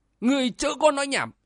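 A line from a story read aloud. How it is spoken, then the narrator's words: Furious loud shout. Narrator (Vietnamese): Cơn giận nổi lên cực điểm, lão đồng chủ thét to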